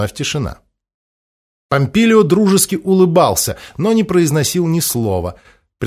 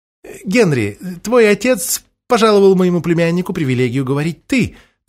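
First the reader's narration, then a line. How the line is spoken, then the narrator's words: Old woman, hurried. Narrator (Russian): торопливо продолжила старуха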